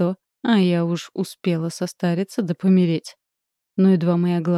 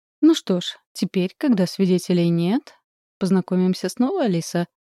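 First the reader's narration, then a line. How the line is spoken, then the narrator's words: Plain. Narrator (Russian): говорит Шейн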